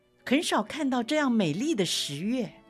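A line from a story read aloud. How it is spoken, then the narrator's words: Loud. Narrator (Chinese): 有个人大声地说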